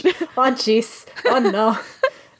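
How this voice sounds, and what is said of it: Brief mock Irish accent. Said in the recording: “that jeez came out a little Irish ... my terrible Irish accent”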